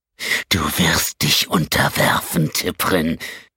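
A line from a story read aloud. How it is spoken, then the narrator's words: Hissing through clenched teeth. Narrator (German): zischte Sten durch zusammengebissene Zähne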